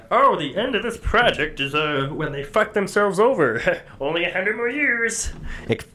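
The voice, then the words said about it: Kermit the Frog character voice. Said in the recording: “What voice is that? It sounded like... Not Cookie Monster. ... Kermit the Frogger. ... like a Jewy Kermit the Frog. Kermit the Frog.”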